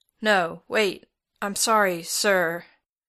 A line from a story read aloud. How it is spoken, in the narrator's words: he stutters